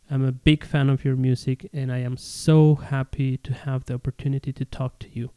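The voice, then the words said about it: Spanish-accented English. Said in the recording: “I hope you can understand my English, my accent ... Spanish is my mother tongue”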